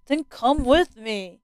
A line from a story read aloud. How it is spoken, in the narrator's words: snapped Elias